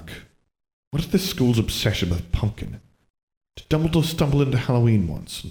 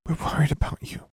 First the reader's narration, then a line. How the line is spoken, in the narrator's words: she whispered